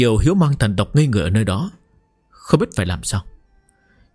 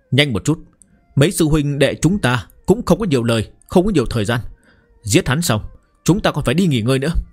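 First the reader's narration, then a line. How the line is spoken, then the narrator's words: Loud urging. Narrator (Vietnamese): Lôi Đằng lớn tiếng thúc giục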